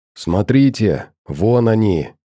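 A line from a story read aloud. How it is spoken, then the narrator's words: Hoarse whisper. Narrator (Russian): Сипло, будто неизвестные недруги могли его услышать, прошептал доктор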